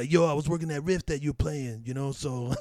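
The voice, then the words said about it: Imitates another person's voice. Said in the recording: “that's my Tim impression. I don't know how it sounds”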